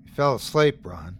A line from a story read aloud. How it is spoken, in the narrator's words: the man said flatly